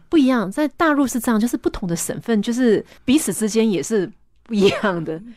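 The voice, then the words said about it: Soft Taiwanese-accented Mandarin. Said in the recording (Chinese): “我讲话，人家也会常常误会啊，因为台湾腔对于他们来讲，他们认为就是听起来比较温柔嘛 ... 他们会觉得我的腔调很温柔这样子”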